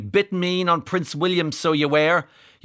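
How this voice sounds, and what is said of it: Put-on northeast English accent. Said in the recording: “that's why I read it out in a northeast accent.”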